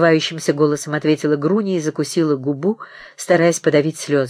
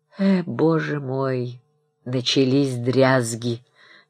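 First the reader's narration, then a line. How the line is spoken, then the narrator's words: Displeased voice. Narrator (Russian): недовольным голосом сказал Обносков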